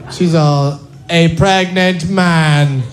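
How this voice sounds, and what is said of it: Poor imitation of another person's voice. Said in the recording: “worst Oprah impression that's ever been attempted”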